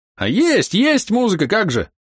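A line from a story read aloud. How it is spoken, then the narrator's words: Ecstatic shout. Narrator (Russian): в восторге закричал Боровой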